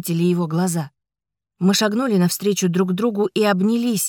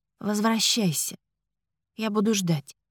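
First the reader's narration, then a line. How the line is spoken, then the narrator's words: Very quiet. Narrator (Russian): сказала совсем тихо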